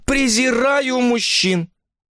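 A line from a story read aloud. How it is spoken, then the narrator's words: Scornful laugh, concluding. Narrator (Russian): презрительно рассмеявшись, она заключила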